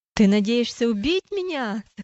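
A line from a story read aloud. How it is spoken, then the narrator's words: Shouting. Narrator (Russian): закричал он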